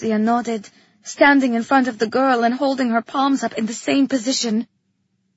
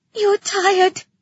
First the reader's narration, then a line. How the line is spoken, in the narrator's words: the girl cried, sniffling back tears